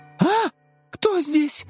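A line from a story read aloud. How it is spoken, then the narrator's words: Startled young woman's cry. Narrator (Russian): вскрикнула девушка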